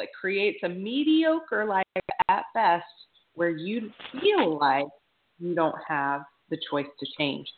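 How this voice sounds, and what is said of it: Announcer voice. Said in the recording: “put on my announcer voice just for the whole beginning”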